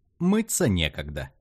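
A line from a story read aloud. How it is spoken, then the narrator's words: Laughing explanation. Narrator (Russian): смеясь объяснила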